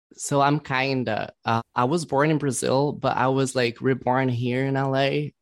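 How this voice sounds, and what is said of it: Foreign accent. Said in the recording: “I could just kind of tell by the accent that you might be maybe from another country.”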